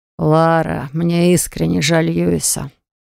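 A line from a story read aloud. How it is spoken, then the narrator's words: Weary. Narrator (Russian): устало проговорил Карлос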